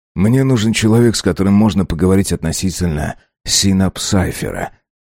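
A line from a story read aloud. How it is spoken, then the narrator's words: Hoarse voice. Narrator (Russian): хрипло сказал Арбин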